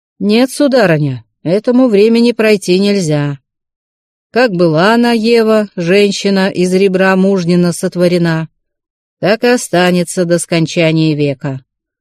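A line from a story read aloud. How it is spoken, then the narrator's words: Stern, triumphant old man. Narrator (Russian): сказал старик, так строго и победительно тряхнув головой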